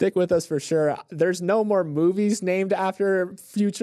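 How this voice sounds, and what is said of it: Usual voice. Nothing is said of it.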